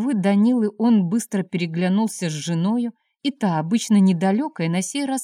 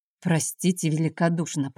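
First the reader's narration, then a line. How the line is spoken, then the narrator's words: Mumbling. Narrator (Russian): пробормотал он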